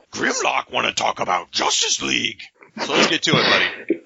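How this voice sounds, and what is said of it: Gruff robot character voice impression. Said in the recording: “that voice impression... atrocious... That was spot on. It was dead on.”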